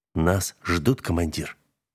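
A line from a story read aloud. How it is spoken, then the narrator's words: Quiet. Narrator (Russian): тихо вымолвил Нагорный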